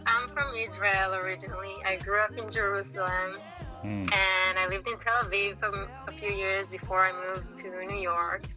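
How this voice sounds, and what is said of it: Israeli accent. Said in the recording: “you obviously don't have a native New Yorker accent ... So this is my accent. It's a traditional Israeli accent.”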